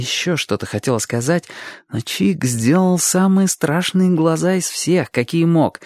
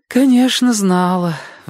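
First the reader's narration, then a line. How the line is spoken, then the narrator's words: Sighing. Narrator (Russian): вздохнула тетя Лариса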